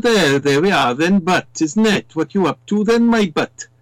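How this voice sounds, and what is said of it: Put-on Welsh accent. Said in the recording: “You've got the Welsh accent”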